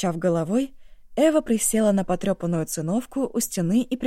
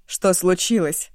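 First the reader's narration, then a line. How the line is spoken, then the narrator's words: Curt question. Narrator (Russian): отрывисто спросила она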